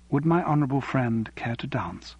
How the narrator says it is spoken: she said quietly

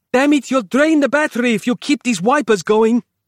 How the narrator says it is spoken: yelled Capello

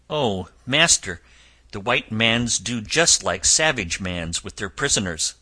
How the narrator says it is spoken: When Friday saw all this, he cried out to me

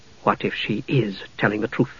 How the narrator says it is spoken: Jenna asked softly

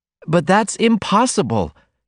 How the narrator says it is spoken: she cried, with a swift, passionate movement

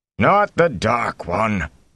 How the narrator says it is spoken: Aral Luhan growled

